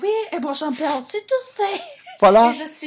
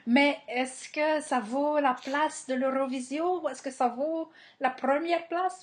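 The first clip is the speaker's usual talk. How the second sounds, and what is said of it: Sudden put-on accent. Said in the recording (French): “Je ne sais pas pourquoi je prends un accent là d'un coup.”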